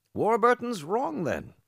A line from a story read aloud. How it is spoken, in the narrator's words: Ralph rejoicingly exclaimed